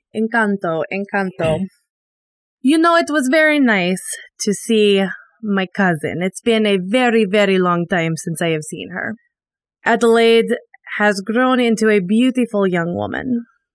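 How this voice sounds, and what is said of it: Put-on character accent. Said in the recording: “doing my character's voice... Don't laugh at my way of getting into this accent”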